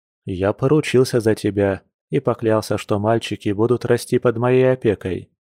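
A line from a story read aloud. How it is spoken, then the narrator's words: Calm. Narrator (Russian): спокойно произнес оборотень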